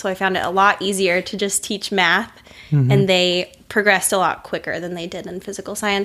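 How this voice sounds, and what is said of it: Noticeable foreign accent. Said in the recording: “the kids weren't really getting the concepts from me because of my accent”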